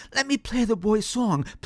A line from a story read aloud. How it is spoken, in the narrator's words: pleaded Songbird